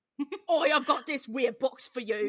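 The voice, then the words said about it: Bad Cockney accent. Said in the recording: “he's doing a bad Cockney accent”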